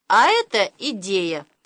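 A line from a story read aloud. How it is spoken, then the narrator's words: Chuckling. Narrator (Russian): Хохотнул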